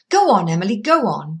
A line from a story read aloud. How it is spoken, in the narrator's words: cried Alex impatiently